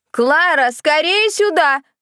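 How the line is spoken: Shouted. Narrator (Russian): крикнула миссис Карнеги

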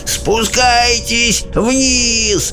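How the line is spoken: Yelling, old man. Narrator (Russian): вопил дедушка Джордж

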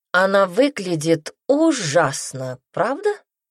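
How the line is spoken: Drawl from above. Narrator (Russian): протянул сверху знакомый голос

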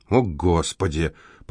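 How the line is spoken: Muttered aloud. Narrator (Russian): пробормотал Винсент вслух

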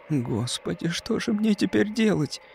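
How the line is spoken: Bewildered whisper. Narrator (Russian): растерянно прошептала она

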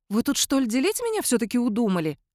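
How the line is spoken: Indignant question. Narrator (Russian): возмущенно спросила она

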